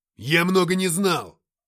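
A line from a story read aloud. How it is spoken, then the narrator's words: Barked. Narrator (Russian): рявкнул Матвей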